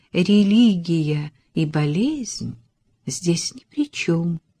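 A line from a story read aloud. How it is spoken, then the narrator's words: Soft. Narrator (Russian): мягко сказала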